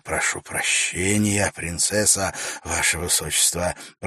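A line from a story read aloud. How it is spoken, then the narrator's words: Muttered. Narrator (Russian): пробормотал Вакир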